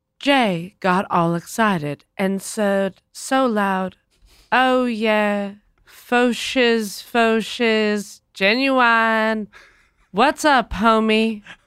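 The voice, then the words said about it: Sing-songy imitation of another person's voice. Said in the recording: “my impression ... of Michelle Williams doing an impression of Justin Timberlake ... There is something sing-songy about it.”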